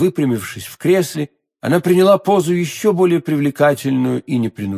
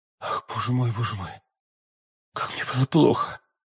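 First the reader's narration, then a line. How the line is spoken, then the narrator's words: Melodious enchanting whisper. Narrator (Russian): прошептала миледи тем благозвучным голосом, который, подобно голосам волшебниц древности, очаровывал всех, кого она хотела погубить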